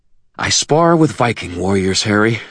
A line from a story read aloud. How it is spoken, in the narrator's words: she snarled